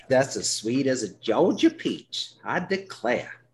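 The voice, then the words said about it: Put-on Georgia Southern accent. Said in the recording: “that's my Georgia accent.”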